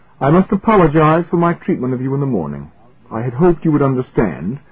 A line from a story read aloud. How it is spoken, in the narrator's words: said, and his voice was firm